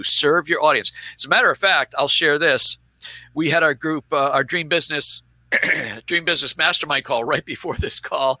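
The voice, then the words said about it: Strained, fading voice. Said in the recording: “which is why I'm now losing my voice.”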